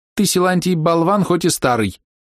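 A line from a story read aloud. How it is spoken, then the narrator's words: Cheerful quick ringing voice. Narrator (Russian): весело и быстро звонко сказала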